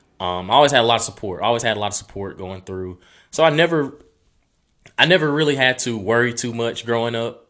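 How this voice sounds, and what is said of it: Rural Southern US country accent. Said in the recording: “I didn't know I had an accent until I got to college ... you talk so country ... where I'm from, everybody sounds the same”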